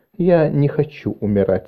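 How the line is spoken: Very quiet. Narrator (Russian): сказала Марис очень тихо

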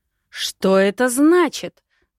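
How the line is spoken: Roaring woman. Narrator (Russian): взревела рыжая

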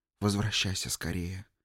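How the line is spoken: Whisper in ear. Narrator (Russian): шепнула ему в ухо

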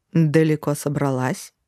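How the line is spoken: Menacing. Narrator (Russian): прозвучало грозно

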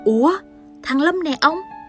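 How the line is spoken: Surprised exclamation. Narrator (Vietnamese): Bà kêu lên bằng giọng kinh ngạc

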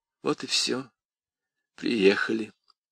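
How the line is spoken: Lifeless voice. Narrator (Russian): промолвила она безжизненным голосом

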